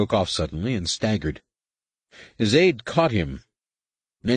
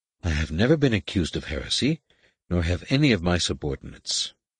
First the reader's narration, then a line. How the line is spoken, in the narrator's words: Mejon Quad said